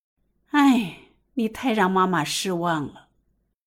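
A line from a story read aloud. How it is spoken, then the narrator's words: Pause, then sigh. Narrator (Chinese): 许香芝顿了顿，叹息一声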